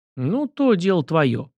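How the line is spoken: Flustered grumble. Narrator (Russian): проворчал проводник, окончательно растерявшись

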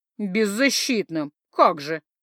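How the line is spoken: Deep bass creature voice. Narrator (Russian): пробасила не то копытная, не то примат

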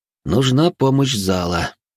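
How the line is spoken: Sighing. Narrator (Russian): вздохнул я

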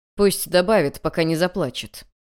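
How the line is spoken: Sudden cold. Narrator (Russian): император вдруг холодно произнес

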